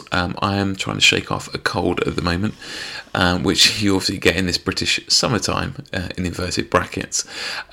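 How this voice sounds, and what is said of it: Slightly hoarse voice. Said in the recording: “my voice is a bit hoarse.”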